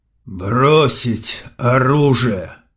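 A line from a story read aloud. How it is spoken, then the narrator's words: Hoarse but clear. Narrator (Russian): хрипло, но внятно выговаривает Бас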